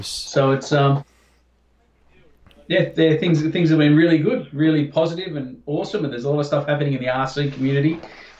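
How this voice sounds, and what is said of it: Speaking with a head cold. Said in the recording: “I have got a cold”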